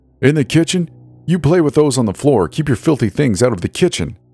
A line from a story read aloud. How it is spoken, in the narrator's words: my husband yelled